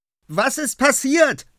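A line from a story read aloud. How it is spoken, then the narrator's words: Shouting. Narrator (German): schreit sie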